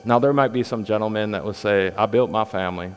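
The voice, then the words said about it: Put-on Southern US accent. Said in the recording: “I picked up a Southern accent.”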